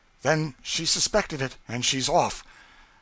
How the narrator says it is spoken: He exclaimed

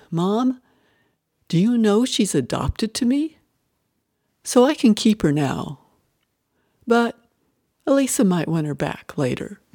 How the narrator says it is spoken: 5-year-old Toby came into the kitchen gently cradling a baby doll, and he said

